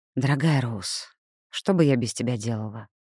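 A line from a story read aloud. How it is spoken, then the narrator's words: Sighed. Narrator (Russian): вздохнула Элли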